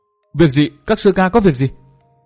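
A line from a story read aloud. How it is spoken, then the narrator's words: Frightened, urgent question. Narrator (Vietnamese): Nàng sợ hãi tới chi run rẩy, gấp rút hỏi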